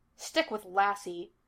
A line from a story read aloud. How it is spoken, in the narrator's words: he snapped